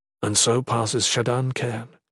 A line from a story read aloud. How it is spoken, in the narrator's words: Dayson intoned softly